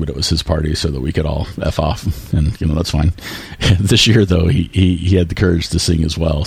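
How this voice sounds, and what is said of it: Strained, worn-out voice. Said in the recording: “this is why I am talking over the party, is why my voice is hammered today.”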